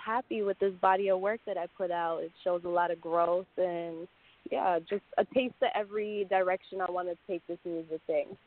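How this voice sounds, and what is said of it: Jamaican English accent. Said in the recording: “you have a little accent ... I'm Jamaican ... I can hear it.”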